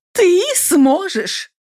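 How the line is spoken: Exclaimed. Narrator (Russian): воскликнула я

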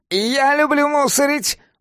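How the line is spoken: Shouted from offstage. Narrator (Russian): выкрикнул из-за кулис Алоис

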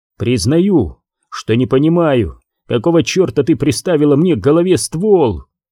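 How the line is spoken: Shouted. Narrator (Russian): выкрикнул он

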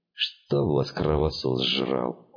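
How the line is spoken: Grumbling. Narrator (Russian): проворчал торец

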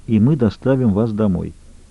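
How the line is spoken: Quiet. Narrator (Russian): тихо добавил

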